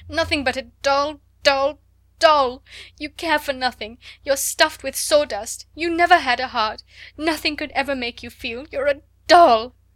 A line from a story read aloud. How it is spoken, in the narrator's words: cried